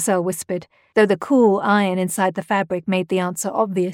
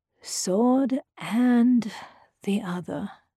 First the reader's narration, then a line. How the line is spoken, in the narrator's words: Jean murmured